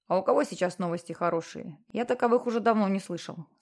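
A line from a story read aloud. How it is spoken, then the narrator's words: Plain. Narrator (Russian): сказал Джексон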